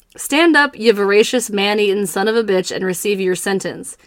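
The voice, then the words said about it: Put-on country accent. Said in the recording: “I can't help but do a country accent.”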